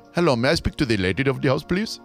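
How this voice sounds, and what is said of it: Put-on Indian accent. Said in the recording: “Well, I think it's Indian. ... Is it like what ... just did? ... He's probably calling from India too”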